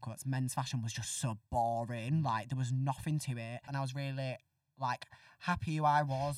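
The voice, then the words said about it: Northern English accent. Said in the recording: “my Northern accent ... my own accent”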